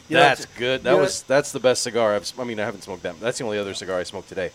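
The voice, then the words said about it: Rough, worn-sounding voice. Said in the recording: “my voice sounds terrible”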